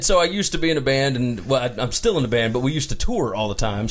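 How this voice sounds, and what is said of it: Mississippi Southern accent. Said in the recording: “I'm from Mississippi ... I can recognize that accent from anywhere”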